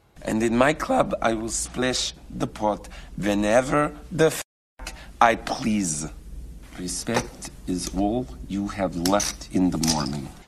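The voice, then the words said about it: Put-on Russian accent in English. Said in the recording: “Russian accent. ... John Malkovich, Rounders. ... Russian-speaking English will sometimes stick a little y sound in ... what Malkovich does here is something that no Russian speaker speaking English would actually do”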